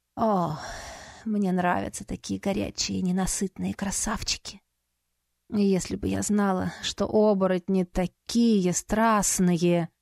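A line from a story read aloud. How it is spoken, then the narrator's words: Almost purring. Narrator (Russian): Едва ли не промурлыкала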